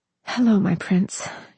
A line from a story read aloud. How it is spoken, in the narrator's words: she murmured happily, sighing